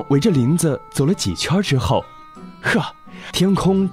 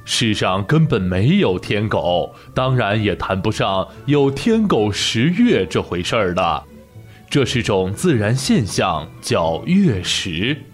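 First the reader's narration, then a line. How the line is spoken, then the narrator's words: Warm smiling tone. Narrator (Chinese): 河马老师笑眯眯地说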